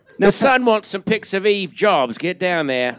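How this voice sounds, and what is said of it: Bad put-on accent. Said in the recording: “that's the worst accent I could have done”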